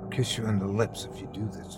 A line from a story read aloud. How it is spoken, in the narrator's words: Chrissy whispered